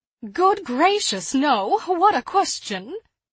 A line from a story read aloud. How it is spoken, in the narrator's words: laughed Mrs